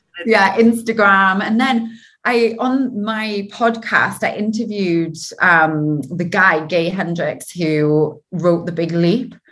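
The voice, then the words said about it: Geordie English accent. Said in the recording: “my dodgy Geordie accent ... you've got an English accent”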